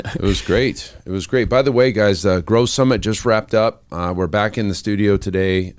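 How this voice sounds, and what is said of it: Raspy, croaky voice. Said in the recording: “My voice is like a frog, you know, like raspy.”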